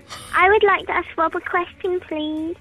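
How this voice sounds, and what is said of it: Creepy childlike voice with speech impediment. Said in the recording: “that girl with a creepy voice ... the scary one ... Ralph Wiggum with a speech impediment from Simpsons”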